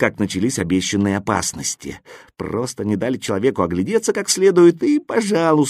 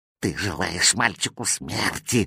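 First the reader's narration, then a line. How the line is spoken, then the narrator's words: Spiteful hissing. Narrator (Russian): злобно шипел кот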